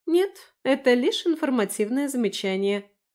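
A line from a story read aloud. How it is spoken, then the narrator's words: Plain. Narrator (Russian): ответила Лера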